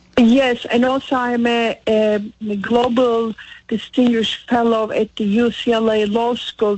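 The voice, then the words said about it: Turkish accent. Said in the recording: “from where your accent comes. That sounds beautiful ... I am from Turkey originally ... That's my accent is coming from.”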